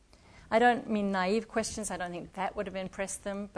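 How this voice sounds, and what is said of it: Non-American accent. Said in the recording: “My accent gave me license to ask questions I couldn't have asked if I'd been a white American”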